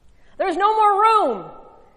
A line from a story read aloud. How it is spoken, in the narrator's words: the man shouted